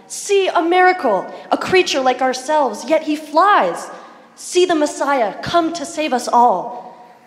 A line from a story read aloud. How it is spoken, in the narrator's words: the creatures downstream cried